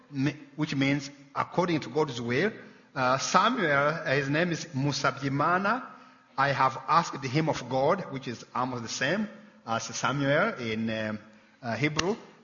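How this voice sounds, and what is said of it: Rwandan-accented English. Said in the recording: “you can tell from ... accent, he's not from here ... he and Bernadette are from the continent of Africa ... the little country of Rwanda”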